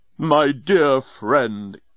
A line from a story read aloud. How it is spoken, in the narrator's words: exclaimed Leovinus